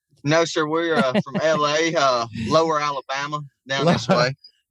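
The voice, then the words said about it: Slight regional American accent. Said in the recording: “I detect a little bit of an accent there.”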